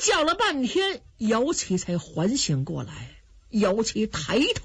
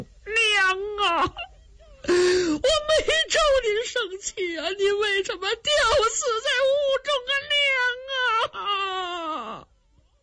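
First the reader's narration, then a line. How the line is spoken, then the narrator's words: Wailing. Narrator (Chinese): 姚琦这么一哭，街坊四邻全都听见了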